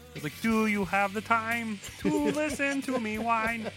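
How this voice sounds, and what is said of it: Kermit the Frog impression, singing. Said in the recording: “me and ... do really good Kermit the Frog impersonation”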